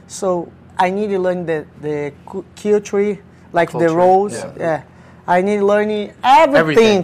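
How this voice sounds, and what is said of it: Non-native English accent. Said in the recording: “you heard my accent. I learn English here, I never study English.”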